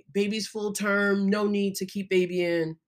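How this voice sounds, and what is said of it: Mock male doctor voice. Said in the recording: “I don't know why I'm doing that voice, except I can imagine that this generally male doctors who are having this conversation”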